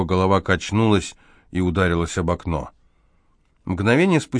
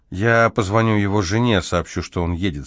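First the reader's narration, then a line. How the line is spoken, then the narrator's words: Plain. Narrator (Russian): сказала она водителю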